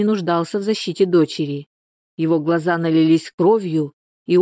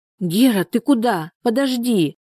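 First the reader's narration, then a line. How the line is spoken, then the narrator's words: Exclamation. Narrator (Russian): воскликнула Соня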